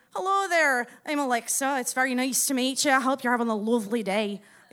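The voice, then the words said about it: Put-on Scottish accent. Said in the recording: “you're Scottish ... you still have an accent”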